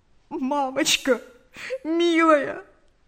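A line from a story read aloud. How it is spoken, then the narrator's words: Inner sobbing. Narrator (Russian): рыдало сердце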